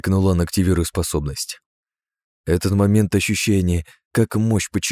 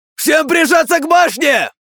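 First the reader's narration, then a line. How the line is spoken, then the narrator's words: Shout. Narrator (Russian): крикнул он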